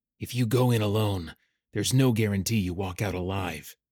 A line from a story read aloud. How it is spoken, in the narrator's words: Callum growled